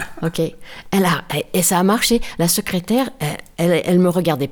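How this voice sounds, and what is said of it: Usual voice. Nothing is said of it.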